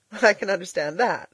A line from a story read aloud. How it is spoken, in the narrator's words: laughed Elnora